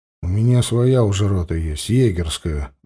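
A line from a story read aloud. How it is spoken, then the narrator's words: Muttered. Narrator (Russian): буркнул Лёшка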